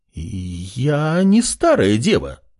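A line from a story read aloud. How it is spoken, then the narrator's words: Flustered exclamation, female warrior. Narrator (Russian): раскрасневшись, воскликнула воительница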